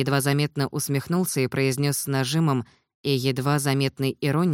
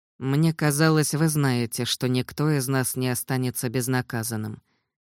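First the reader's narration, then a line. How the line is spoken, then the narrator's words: Grim, interrupting. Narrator (Russian): мрачно перебил Андрей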